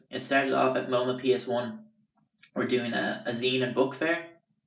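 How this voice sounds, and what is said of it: Irish accent. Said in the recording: “Your accent... They would always say Australian first, goes Australian, New Zealand, Scottish, Northern Irish, then Irish... Wow, Ireland.”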